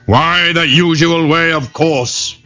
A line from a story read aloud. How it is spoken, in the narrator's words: hollered the tiger